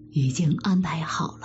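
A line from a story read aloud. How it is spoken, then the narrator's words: Whispering. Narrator (Chinese): 贾琏 悄声告诉贾政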